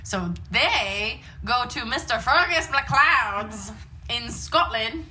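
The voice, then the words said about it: Bad put-on Scottish accent. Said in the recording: “That was my best Scottish accent. ... It's terrible.”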